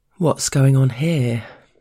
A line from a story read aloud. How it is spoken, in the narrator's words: the boss drawls casually